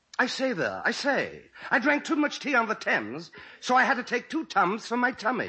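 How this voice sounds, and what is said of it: Posh upper-class English accent. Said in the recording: “I'll open with an impression of Noel Coward ... That is some English accent ... I speak English like I got a monocle up my nose”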